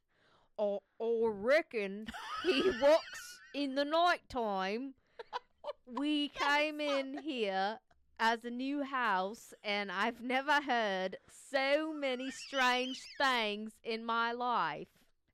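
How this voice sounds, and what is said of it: Poor, shifting attempt at Australian accent. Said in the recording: “let me try to say this with an Australian accent ... Nope, I suck at this. ... That was the worst accent I've ever heard you say. ... It went from like Western to Australian to British to English to Western again.”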